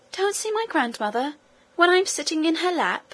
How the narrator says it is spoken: exclaimed the princess

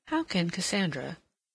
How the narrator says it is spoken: she murmured

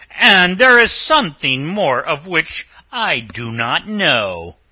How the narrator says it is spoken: said the ogre

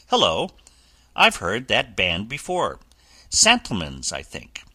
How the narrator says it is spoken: Joy suddenly broke off in the middle of an eloquent sentence, exclaiming

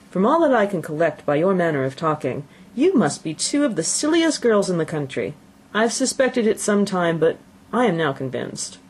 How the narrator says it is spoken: Bennet coolly observed

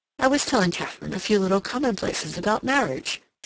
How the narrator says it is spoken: said with a little laugh

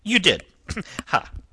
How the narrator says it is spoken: uttered a short, stabbing laugh

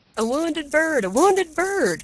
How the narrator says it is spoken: cried the women

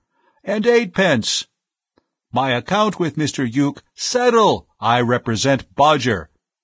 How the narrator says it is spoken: voice lost in the general roar

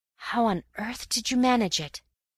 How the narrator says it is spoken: At last I whispered

